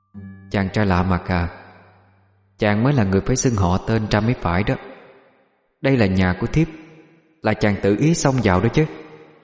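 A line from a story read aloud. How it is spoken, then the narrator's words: Harsh, clipped voice. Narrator (Vietnamese): gằn giọng mà nói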